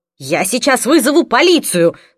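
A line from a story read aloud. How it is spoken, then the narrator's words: Yelling. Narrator (Russian): заорала я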